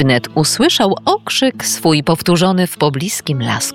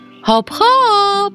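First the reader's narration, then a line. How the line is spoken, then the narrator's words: Shout. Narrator (Polish): krzyknął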